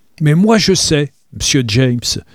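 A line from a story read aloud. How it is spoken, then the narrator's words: Cry. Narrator (French): s'écria Bray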